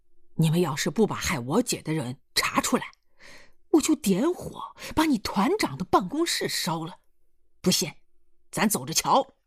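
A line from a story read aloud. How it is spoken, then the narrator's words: Furious. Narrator (Chinese): 易秦娥他弟怒火又冲天冒将起来，说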